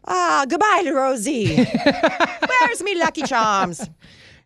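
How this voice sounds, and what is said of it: Mock Irish accent, pirate-like. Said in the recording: “I don't do an Irish accent ... Usually it turns into some sort of pirate”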